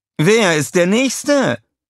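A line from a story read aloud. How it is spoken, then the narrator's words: Calling out. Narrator (German): rief Scarlett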